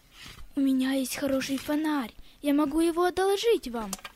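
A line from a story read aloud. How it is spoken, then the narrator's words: Gentle, kind gentleman. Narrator (Russian): какой-то господин ласково сказал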